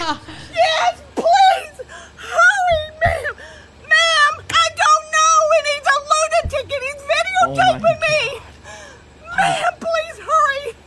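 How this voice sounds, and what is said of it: Woman yelling frantically. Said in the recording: “She's yelling”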